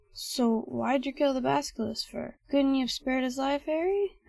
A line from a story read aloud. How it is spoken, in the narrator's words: Hagrid moaned